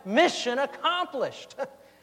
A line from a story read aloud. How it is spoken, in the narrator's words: I stood up and shouted